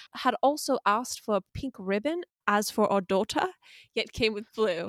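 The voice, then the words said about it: Put-on accent, getting worse. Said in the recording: “The accent, it's getting worse with every word.”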